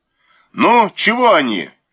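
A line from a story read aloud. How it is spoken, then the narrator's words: Shouted. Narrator (Russian): крикнул Муравьев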